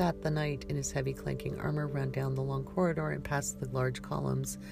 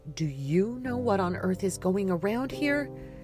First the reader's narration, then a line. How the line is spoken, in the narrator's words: Persephone snapped a bit too harshly at Trevia